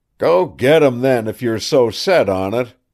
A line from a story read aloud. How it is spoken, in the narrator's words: he howled at the collie